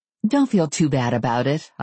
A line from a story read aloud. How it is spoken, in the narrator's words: I told him, my voice conciliatory